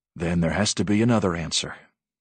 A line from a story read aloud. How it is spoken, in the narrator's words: the big man said gently